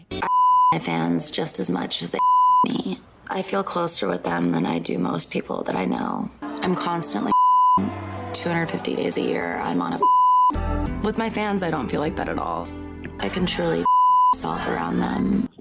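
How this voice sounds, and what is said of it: Heavy vocal fry. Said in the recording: “That vocal fry is just so bad.”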